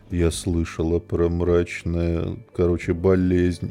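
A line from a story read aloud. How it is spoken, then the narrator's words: Very dejected voice. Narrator (Russian): с супер убитым голосом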